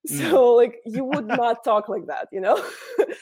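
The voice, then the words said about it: Exaggerated Russian accent in English. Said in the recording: “turn off my English pronunciation and like talk in English the way that I would in Russian ... this is how I would talk if I wouldn't add an English pronunciation to my Russian ... kind of authentic Russian accent, but really it isn't”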